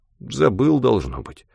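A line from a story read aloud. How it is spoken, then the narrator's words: Confused mutter. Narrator (Russian): пробормотал тот растерянно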